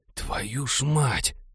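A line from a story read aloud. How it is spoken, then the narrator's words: Barely audible gasp. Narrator (Russian): чуть слышно охнул сосед Молли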